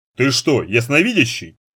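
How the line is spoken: Doubtful snort, man. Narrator (Russian): снова фыркнул мужчина, но в голосе его, тем не менее, послышалось сомнение

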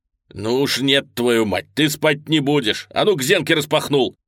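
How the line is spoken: Very loud shout. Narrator (Russian): крикнул Дэрил так громко

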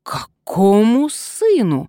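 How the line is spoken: Indignant retort. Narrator (Russian): возмущенно вскинулся Вольсингам

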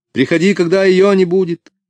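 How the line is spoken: Shouted after him. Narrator (Russian): крикнула ему вслед Флорабелла

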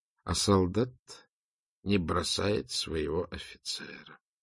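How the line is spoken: Quiet. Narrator (Russian): тихо сказал Делескюр

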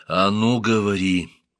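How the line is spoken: Quiet, threatening. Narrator (Russian): произнес Хапусенеп тихо, но в его голосе сквозила угроза

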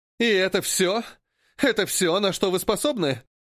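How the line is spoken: Mocking laughter. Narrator (Russian): хохотала язвительно Дири

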